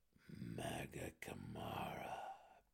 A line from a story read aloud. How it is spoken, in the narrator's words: Belwer breathed